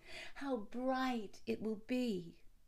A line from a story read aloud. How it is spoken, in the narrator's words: they all exclaimed